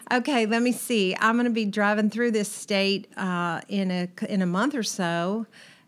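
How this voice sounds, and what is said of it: Regional American state accent. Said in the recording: “Is this a natural accent for you, or you're kind of representing? ... That's what I grew up with. My mother, my father, my brother are all from this particular state”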